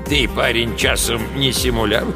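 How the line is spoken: Amused snort. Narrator (Russian): хмыкнул он

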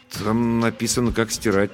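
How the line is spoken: Uncertain. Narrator (Russian): неуверенно объяснил я

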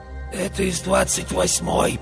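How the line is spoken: Hoarse voice. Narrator (Russian): послышался мне сиплый голос

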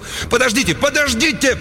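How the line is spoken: Loud wailing yell. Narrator (Russian): Кент завопил

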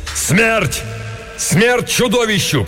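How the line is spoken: Shout. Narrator (Russian): крикнул Беарвальд

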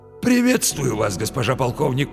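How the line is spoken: Wheezy rasp. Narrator (Russian): просипел он

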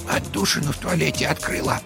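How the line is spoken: Quiet. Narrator (Russian): тихо сообщила она

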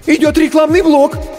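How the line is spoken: Frightened assistant's squeak. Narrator (Russian): испуганно пискнул первый ассистент

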